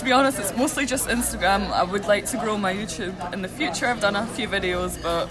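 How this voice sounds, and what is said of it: Scottish accent. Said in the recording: “I hate my accent ... It's so beautiful. Everyone loves it. I've always had a thing for a Scottish accent”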